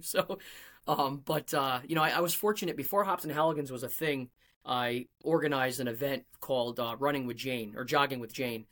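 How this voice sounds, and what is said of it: Rhode Island accent. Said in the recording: “my Rhode Island accent comes out”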